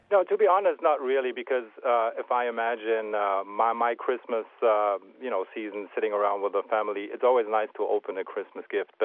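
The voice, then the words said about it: Slight German accent. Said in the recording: “is it a slight German accent that we actually have there?”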